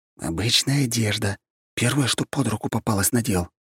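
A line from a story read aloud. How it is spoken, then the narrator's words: Hissed through radiant smile. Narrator (Russian): прошипел в ответ, лучезарно улыбаясь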